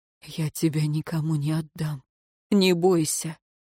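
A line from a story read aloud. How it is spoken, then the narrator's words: Whisper. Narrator (Russian): Тиен шепнул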